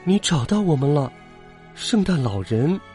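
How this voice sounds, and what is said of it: Whispered, quiet voice. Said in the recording (Chinese): “小声说道”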